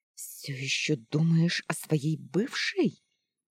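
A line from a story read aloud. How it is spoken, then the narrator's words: Angry hostess hissing. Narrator (Russian): Злобно зашипела хозяйка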